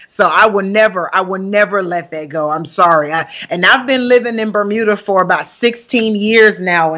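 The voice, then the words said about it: Southern US country accent. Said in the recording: “you can hear a bit of a country accent ... born and raised from Huntsville, Alabama ... the country accent that's coming through ... I will never lose my country accent”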